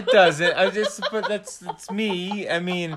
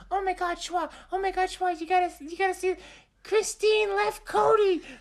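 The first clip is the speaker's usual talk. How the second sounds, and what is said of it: Imitates another person's voice. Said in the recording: “my voice doesn't sound like that when I call you ... I can't do your voice. You sound way prettier than me. You got like a beautiful voice”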